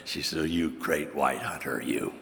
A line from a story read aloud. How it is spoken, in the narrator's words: Jean whispers to me, she says